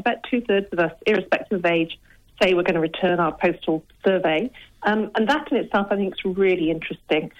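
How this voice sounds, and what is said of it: English accent. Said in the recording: “You can tell by my accent, I'm a POM.”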